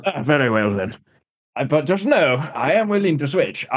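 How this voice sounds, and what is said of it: Put-on comedic foreign accent. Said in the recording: “I'm enjoying this accent. ... I can do many bad accents”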